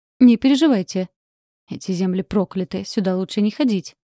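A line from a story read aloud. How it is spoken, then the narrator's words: Man scoffing. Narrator (Russian): хмыкнул мужчина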